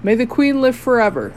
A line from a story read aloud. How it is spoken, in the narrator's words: exclaimed